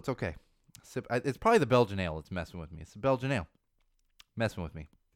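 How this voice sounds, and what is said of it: Hoarse, strained voice with catch. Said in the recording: “losing my voice I don't know what is happening here. ... I just got like a little catch in my throat. I'm losing my voice a little.”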